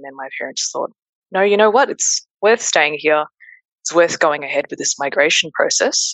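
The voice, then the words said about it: Broad Australian accent. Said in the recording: “your accent, because I was wondering why you had such a dinky die accent.”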